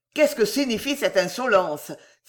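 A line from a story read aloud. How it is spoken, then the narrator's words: Exclaimed. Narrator (French): s'écria M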